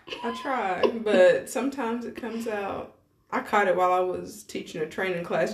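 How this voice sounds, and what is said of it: Southern country accent with twang. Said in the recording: “I have a country accent. ... I'm from Tennessee. That is my accent. ... let a little twang out ... that was very Southern.”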